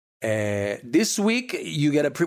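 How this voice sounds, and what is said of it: Briefly slips into an accent. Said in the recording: “Why did I have an accent there?”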